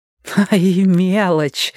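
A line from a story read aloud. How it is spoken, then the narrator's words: Gleeful grin. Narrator (Russian): радостно оскалилась Кузя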